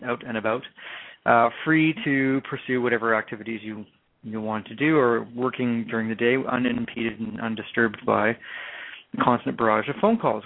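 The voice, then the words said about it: Canadian accent. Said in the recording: “there's my Canadian accent”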